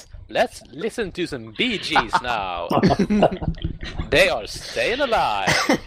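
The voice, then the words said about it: Put-on American radio DJ voice. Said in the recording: “I'm American, you see. Hello, this is my American radio voice.”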